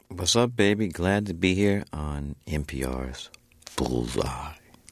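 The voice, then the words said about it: Rich, smooth radio announcer voice. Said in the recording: “I'm giving you my radio voice ... You sound good. You sound good ... we'll get a little even richer”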